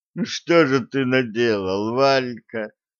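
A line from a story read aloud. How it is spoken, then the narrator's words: Inner groan. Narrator (Russian): мысленно простонал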